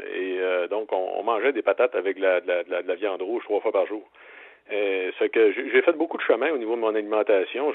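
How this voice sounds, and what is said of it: Quebec Lac-Saint-Jean French accent. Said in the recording (French): “mon petit accent, là, vous avez peut-être pu noter, je viens du Lac-Saint-Jean.”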